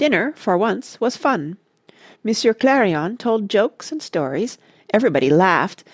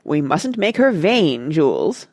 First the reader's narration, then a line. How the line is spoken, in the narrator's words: said my father in a stately voice